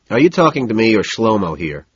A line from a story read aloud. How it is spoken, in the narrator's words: sigh, but loudly enough for the Israeli driver to hear me